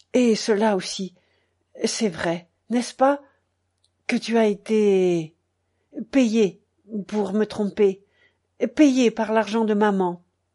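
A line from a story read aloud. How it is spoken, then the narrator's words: Cold reply. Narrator (French): André répondit froidement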